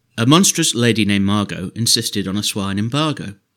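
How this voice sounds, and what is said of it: Theatrical poetry-reading voice. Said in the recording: “put on my best reading voice.”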